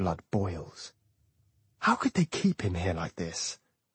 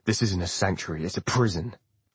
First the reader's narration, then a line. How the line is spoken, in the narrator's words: Frost barks